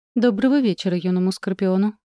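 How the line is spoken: Calm. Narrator (Russian): спокойно произнес черноволосый

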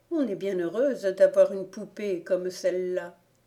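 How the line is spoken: Exclaimed. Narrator (French): s'écria Gone

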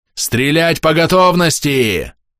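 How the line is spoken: Roar. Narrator (Russian): взревел Водлар

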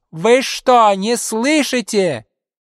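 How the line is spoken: Sudden shrill irritated falsetto shout. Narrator (Russian): вдруг закричал на весь коридор визгливым, раздраженным фальцетом

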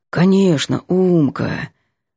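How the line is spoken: Sleepy promise. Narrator (Russian): сонно обещает Ванька

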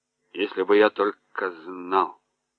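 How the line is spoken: Muttered. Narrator (Russian): пробормотал Кеттерли

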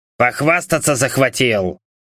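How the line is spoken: Hoarse snort. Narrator (Russian): сипло хмыкнул Дэвис

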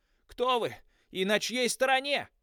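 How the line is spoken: Shouted. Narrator (Russian): крикнул

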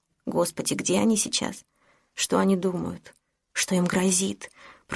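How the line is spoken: Whispered. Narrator (Russian): прошептала

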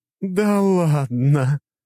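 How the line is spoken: Laughing mature woman. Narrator (Russian): смеялась статная зрелая женщина

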